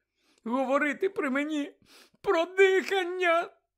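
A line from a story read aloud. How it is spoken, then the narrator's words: Shrill echoing cry. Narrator (Ukrainian): Пронизливо вигукнула вона, і її голос луною відбився по кімнаті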